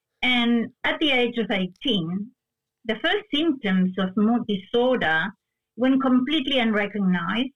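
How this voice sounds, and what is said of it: Spanish-influenced Argentine accent. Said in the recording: “where my accent comes from. And it's from Spanish. I was born in Argentina.”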